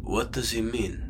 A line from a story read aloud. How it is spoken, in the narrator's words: rumbled Randall